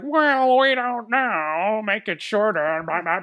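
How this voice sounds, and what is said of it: Imitates studio executives' voice. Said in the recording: “my impression of Warner Brothers executives”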